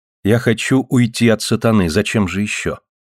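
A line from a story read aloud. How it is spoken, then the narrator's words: Calm reply. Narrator (Russian): спокойно ответила Ева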